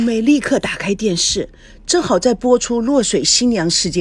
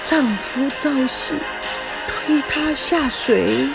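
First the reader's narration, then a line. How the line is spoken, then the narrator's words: Murmuring. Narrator (Chinese): 叶枫喃喃地说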